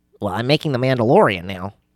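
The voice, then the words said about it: Poor imitation of another person's voice. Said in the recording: “terrible Jon Favreau impression”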